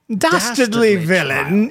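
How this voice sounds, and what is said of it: Put-on English accent. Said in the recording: “you have to use an English accent ... English accents all around.”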